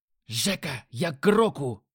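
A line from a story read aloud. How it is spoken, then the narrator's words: Shout. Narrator (Russian): крикнул азиат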